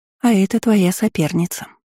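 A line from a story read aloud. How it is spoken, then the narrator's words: Tender reply. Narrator (Russian): ласково ответила я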